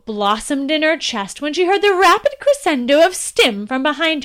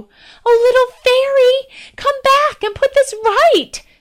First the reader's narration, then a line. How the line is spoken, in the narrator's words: pleaded in the air